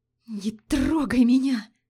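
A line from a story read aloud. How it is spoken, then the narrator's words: Hoarse rasping. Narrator (Russian): Хрипела она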